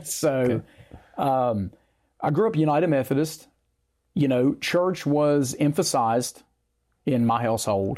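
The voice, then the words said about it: Central Appalachian accent. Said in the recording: “as you can tell by my accent, my story begins in Central Appalachia.”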